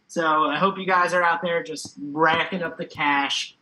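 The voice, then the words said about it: Brief put-on Philadelphia accent. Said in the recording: “I just got a Philly accent there for a second”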